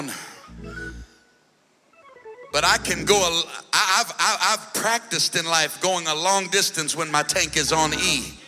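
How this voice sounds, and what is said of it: Worn-out, strained voice. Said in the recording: “my voice is barely hanging on ... just a little bit of voice on E tonight”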